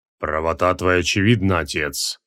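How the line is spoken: Booming bass. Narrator (Russian): гулко пробасил Шухмед

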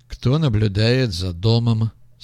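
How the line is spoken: Disguised voice. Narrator (Russian): спросил артист измененным голосом

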